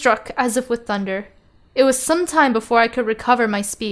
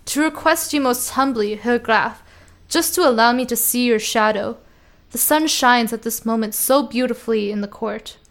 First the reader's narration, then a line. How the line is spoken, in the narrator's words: replied quite coolly